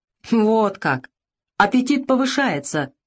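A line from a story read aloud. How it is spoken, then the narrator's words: Mocking snort. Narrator (Russian): хмыкнул с издевкой Алик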